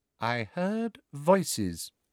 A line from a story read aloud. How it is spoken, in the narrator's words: she said quietly